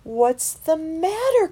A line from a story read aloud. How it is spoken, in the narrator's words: Christopher cried